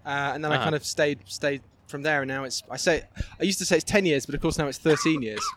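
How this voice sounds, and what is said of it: British London accent. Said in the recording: “if people can't tell from your accent, seems like you're from Britain and London”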